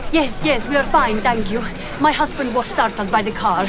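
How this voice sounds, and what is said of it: Italian accent. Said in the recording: “Are you Italian? ... my accent is not always good ... it is very good”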